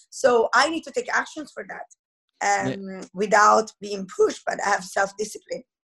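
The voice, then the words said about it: Heavy Italian accent. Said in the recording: “I love your accent... The Italian's coming out... I still have such a heavy accent”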